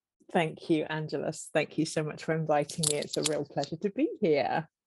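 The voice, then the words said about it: Noticeable regional accent. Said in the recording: “don't you just love her accent?”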